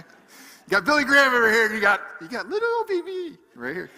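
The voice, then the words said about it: Weird put-on voice. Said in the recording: “That was a weird voice.”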